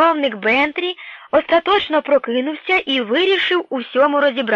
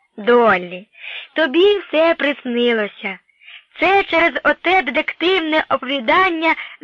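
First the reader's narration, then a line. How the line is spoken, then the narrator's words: Very gentle voice. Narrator (Ukrainian): Почав дуже лагідно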